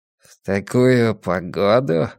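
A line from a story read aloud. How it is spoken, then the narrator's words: Gloomy. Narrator (Russian): мрачно ответил Блор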